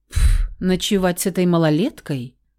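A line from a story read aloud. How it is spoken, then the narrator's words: Snorting. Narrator (Russian): Натурально фыркнул птиц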